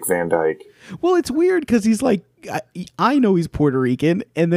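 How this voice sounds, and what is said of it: Usual voice. Nothing is said of it.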